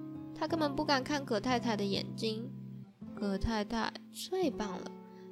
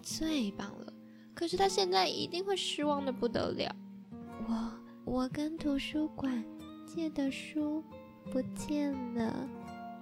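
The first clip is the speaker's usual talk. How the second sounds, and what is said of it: Very quiet, holding back tears. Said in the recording (Chinese): “拉拉最后小小声的说，强忍着不哭出来。”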